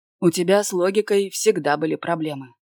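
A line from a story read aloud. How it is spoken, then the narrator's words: Snorting. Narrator (Russian): фыркнул он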